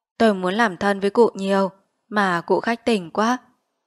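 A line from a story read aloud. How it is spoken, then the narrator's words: Sighing, reproachful. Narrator (Vietnamese): Quan huyện thở dài trách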